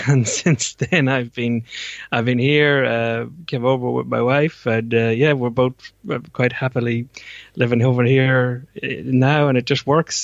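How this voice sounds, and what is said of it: Irish accent. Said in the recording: “in terms of your kind of accent. I was putting you to Ireland”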